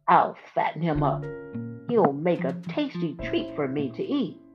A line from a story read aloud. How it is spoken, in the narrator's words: cackled